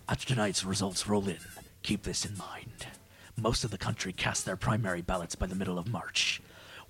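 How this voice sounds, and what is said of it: Serious voice imitating another person. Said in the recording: “I'm gonna read this in my serious voice ... read it in Liam Neeson voice? ... You're taken voice.”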